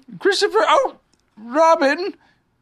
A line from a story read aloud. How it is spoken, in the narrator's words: called out the cloud